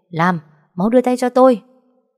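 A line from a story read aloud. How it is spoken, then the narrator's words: Shouting. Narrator (Vietnamese): Hiệu trưởng hét lên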